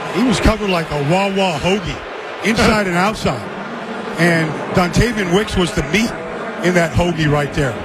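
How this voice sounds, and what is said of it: Slight Delaware County Philadelphia accent. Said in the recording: “You have a little Delco accent”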